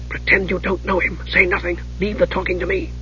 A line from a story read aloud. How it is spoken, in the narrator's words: She whispered